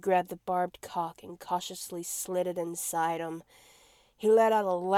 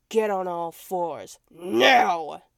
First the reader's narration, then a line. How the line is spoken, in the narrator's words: growled